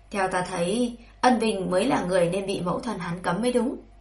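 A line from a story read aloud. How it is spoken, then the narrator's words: Sighing. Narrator (Vietnamese): Dương Cứ thở dài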